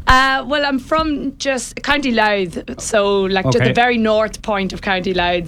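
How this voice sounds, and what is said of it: Northern Irish twang accent. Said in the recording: “I can hear the accent... northern twang”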